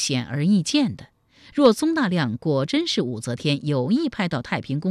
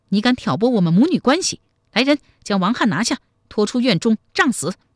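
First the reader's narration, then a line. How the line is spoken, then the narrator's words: Furious. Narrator (Chinese): 太平公主大怒说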